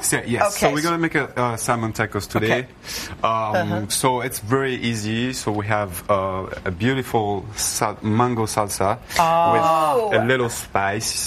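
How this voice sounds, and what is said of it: Speaks with a noticeable foreign accent. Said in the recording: “We love your accent.”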